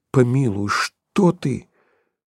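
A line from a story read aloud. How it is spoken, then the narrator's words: Quiet, almost frightened. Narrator (Russian): Подколесин, почти испугавшись, произнося тихо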